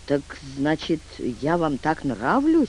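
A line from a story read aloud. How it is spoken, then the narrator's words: Barely audible question. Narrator (Russian): спросил едва слышно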